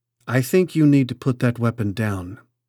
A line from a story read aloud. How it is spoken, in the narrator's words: he told Rick calmly